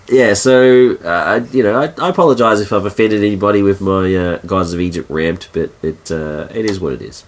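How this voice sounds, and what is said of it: Sick, husky voice. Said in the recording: “I'm sick ... my sexy voice, which has changed halfway through the episode”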